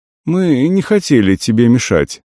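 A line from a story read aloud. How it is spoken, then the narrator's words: Calm, smiling old man. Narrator (Russian): спокойно улыбнулся дед Федор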